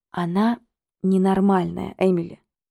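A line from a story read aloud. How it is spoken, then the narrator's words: Soft, persuasive. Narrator (Russian): сказала я мягко, убедительно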